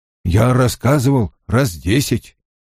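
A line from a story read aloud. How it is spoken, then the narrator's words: Grumbled. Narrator (Russian): пробурчал Перин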